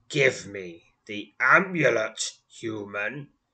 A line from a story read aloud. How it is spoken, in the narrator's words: growls